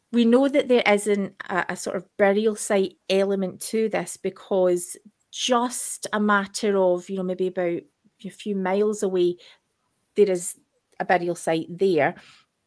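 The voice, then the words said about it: Broad Scottish accent. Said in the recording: “because I'm speaking about Scottish things, my accent started to get super broad”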